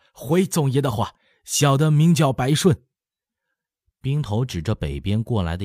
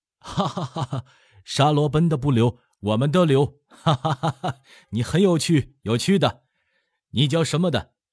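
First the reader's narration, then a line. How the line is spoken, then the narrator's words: Hearty laughter. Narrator (Chinese): 嘎巴哈哈大笑说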